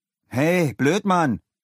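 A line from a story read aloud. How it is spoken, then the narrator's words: Calling out. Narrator (German): rief Leo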